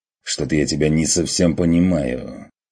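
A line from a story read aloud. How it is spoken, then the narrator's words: Irritated, curt. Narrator (Russian): раздраженно бросил Ван Ален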